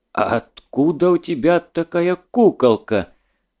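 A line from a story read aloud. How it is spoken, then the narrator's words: Forced out with effort. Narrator (Russian): Через силу выдавил Задов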